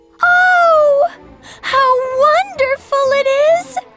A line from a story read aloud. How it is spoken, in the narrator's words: She cried out